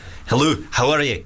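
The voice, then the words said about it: Put-on Scottish accent. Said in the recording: “Scottish. ... It's not bad, right? That was okay.”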